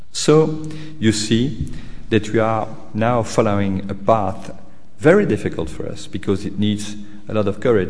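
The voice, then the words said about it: Strong non-native accent. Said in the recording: “the awful accent I have reading the text”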